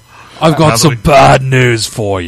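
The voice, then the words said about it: Muddled British-Irish Bad News Barrett impression. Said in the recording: “that's how Bad News Barrett usually sounds ... What the fuck was that accent? ... drunk, ... British, Irish, Mexican combination. ... It sounded more white than Mexican. ... Benny Hill meets 300 British style.”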